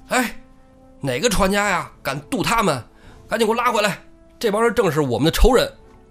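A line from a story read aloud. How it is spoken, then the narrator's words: Shouting. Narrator (Chinese): 穆弘、穆春哥俩就在那喊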